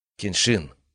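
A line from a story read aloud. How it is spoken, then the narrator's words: Quiet. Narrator (Russian): сказала она тихо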